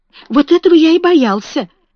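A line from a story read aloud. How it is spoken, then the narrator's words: Exclaimed. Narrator (Russian): воскликнул Фаунтлерой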